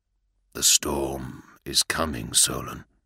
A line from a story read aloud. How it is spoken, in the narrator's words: the battle captain said in a dead voice